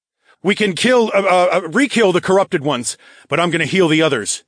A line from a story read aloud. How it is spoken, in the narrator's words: I called out